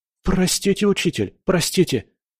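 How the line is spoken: Cowering student's timid babble. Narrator (Russian): залепетал ученик, съежившись

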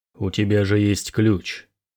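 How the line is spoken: Calm question. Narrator (Russian): спокойно спросил Снорри

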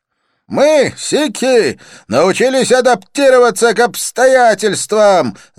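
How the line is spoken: Yelling over music. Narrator (Russian): заорал Джасван, стараясь перекричать музыку

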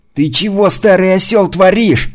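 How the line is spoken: Yelled. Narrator (Russian): заорал он на Митрича

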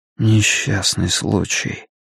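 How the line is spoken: Repeated almost in whisper. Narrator (Russian): повторил Стью чуть ли не шепотом

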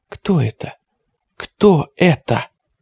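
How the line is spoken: Sobbing whisper. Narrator (Russian): Ника всхлипывала и шептала

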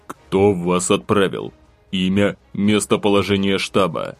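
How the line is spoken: Interrupting, venomous hiss. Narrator (Russian): Попытался рассмеяться мужчина мне в лицо, перебивая на полуслове, после чего ядовито процедил

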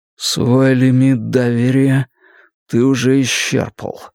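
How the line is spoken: Muffled, lifeless voice. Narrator (Russian): глухо ответил я безжизненным голосом

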